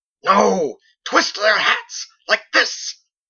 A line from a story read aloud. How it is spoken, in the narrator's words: roared